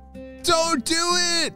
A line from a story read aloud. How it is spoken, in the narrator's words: He shouted